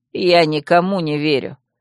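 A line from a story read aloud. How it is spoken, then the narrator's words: Calm retort. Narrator (Russian): спокойно парировал Тир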